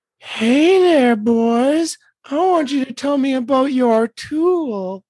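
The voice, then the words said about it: Sultry, seductive voice. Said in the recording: “Use your sexy voice.”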